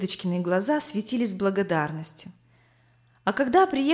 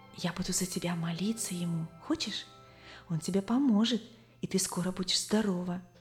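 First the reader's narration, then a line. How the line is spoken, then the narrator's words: Trusting whisper in ear. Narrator (Russian): подружка доверчиво шептала ей в самое ухо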